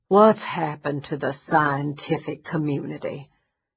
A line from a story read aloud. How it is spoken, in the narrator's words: he said with a dramatic groan